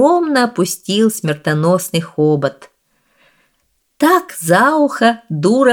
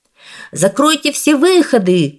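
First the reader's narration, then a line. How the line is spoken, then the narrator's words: Shouting. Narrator (Russian): кричал художник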